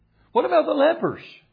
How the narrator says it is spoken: They cried to the Lord

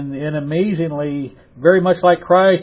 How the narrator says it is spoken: he cried out with a loud voice

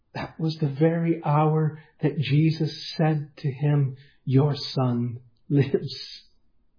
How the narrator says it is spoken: this father mutters to himself

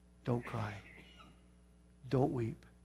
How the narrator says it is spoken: Jesus whispers to you

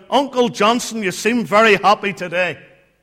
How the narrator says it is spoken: his pastor, his minister who was passing by, looked over the fence and he called out

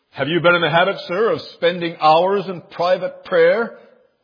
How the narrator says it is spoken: the doubting commander sternly asked the culprit

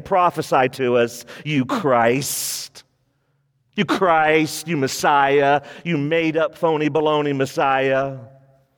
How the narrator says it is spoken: mocking him even more, saying

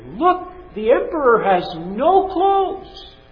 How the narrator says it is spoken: in a moment of silence, a little boy piped up and said for everyone to hear

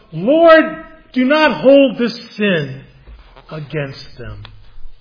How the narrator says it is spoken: When they were killing him, he cried out

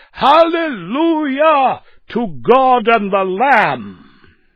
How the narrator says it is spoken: his joy again rushed back into his soul, and he again shouted loud as ever

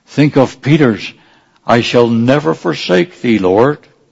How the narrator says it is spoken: he exclaims

